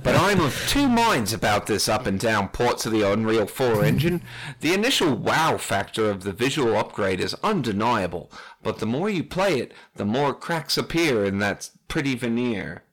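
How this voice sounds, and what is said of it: Put-on Australian accent. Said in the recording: “Who wants to do an Australian accent? ... There's a lot of words here that I never thought I would say in an Australian accent.”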